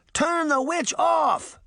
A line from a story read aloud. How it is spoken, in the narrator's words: Sabrina shouted